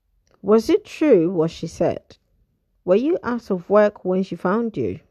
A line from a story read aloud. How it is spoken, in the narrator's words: he asked